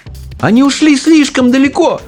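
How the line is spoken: Exclaiming. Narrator (Russian): воскликнул Чарли

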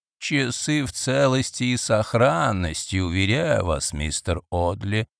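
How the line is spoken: Embarrassed old man's mumble. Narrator (Russian): смущенно пробормотал старик

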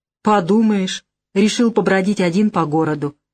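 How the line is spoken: Scoffing. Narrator (Russian): хмыкнул он

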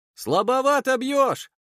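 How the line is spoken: Shouting. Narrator (Russian): крикнул я

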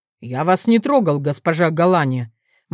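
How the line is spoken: Gloomy objection. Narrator (Russian): мрачно возразил Павлус

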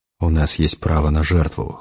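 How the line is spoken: Cold. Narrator (Russian): холодно сказал Эдгар

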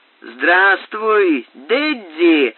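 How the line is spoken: Shouting. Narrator (Russian): закричал Снель

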